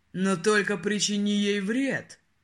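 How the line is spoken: Low growling warning. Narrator (Russian): Предупредил низким, рычащим голосом

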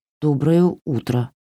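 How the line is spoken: Ashamed mumble. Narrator (Russian): пристыженно пробормотала Варя

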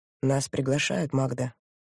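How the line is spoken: Soft. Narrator (Russian): мягко сказал Моран

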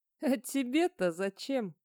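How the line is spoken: Laughing. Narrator (Russian): засмеялся Рудольф

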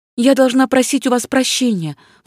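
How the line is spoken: Exclamation. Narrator (Russian): воскликнула Ванина

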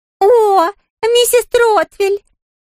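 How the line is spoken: Squeaky woman's voice. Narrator (Russian): сказала незнакомка писклявым голосом

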